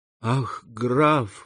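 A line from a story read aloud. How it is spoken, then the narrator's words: Tearful girl's exclamation. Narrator (Russian): воскликнула девушка, заливаясь слезами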